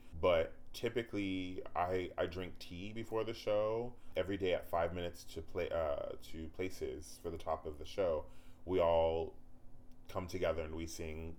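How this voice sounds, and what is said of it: Tired, husky, lower-pitched voice. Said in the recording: “I'm tired today, so my voice is a little more husky and sitting a little down”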